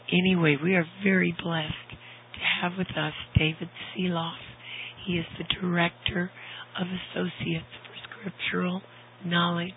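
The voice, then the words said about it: Voice still strained from illness. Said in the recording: “you probably hear in my voice that it is not completely healed.”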